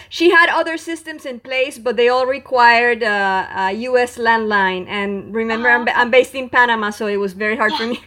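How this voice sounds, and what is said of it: Non-native English accent. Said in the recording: “I hope you understand my accent. ... you speak wonderful English.”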